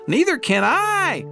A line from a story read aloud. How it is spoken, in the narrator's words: howled Flitter